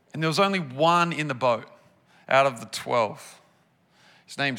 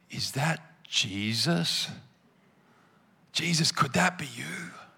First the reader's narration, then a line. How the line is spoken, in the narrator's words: I don't know if he whispered those words or if he muttered them